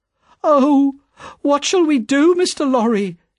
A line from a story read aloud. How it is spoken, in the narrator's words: she cried